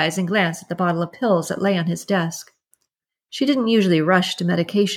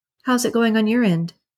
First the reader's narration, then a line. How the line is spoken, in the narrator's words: asked